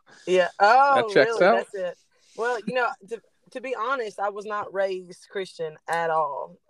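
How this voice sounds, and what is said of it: Alabama Southern US accent. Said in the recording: “I'm trying to place the accent. ... I'm in Alabama.”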